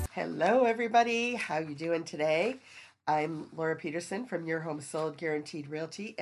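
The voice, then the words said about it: Voice sounding slightly sick, congested. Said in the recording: “you can probably hear it in my voice. I've got that little cold thing going on”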